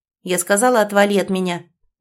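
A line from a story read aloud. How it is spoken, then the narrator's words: Sudden loud bark. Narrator (Russian): неожиданно громко рявкнула девушка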